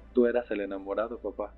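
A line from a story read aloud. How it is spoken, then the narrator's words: Laughing while speaking. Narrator (Spanish): le dije también riendo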